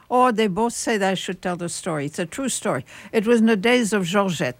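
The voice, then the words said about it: French accent. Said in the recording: “those of us like myself who are French expatriates, we have a French accent, you know, you cannot get rid of it”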